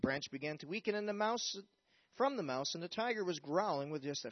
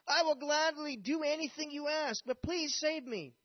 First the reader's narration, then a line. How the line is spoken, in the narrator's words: the man was shocked to hear the reply from his plea, but he yelled back